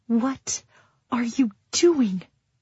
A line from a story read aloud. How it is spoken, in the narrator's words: Taryn hisses at me